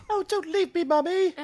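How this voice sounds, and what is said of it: Heavy British accent, child's voice. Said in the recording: “this is definitely a very British Newt moment, right? She definitely gets heavy British accent in this minute ... she does have this come and go kind of British accent thing that happens, and this one's really heavy”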